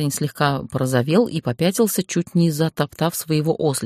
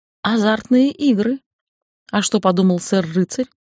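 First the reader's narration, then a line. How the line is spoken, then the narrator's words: Sly, laughing. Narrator (Russian): Лукаво прищурилась я и расхохоталась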